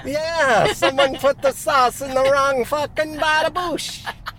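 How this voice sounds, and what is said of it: Italian chef impression. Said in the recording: “An Italian chef? ... doing an impression?”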